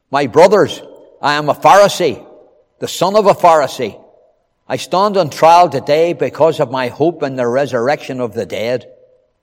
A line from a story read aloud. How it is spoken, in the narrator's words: Paul called out in the Sanhedrin